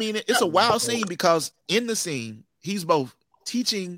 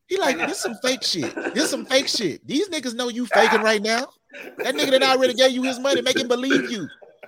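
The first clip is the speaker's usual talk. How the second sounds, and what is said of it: Higher-pitched pimp character voice. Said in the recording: “the pimp is coming out right now ... my voice has gone up a couple of octaves”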